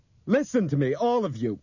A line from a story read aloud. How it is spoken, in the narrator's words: Bob shouted